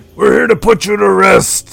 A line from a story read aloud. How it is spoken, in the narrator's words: Stormac yells at his back